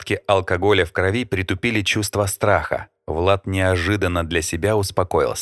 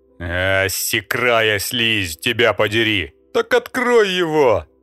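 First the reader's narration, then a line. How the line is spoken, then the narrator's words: Thundering. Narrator (Russian): прогремел захватчик на кухне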